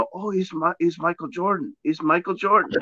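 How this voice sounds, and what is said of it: Put-on Latino accent. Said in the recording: “Why they gotta have a Latino accent, man? Why they gotta be from El Salvador, man?”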